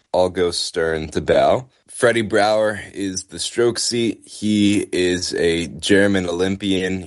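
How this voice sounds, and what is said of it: American accent. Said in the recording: “The accent probably gives it away, but I'm American.”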